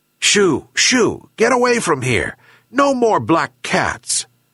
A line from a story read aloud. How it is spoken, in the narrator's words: angrily said the old fisherman